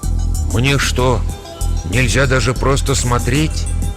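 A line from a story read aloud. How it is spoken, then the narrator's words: Quiet. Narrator (Russian): тихо промолвила матушка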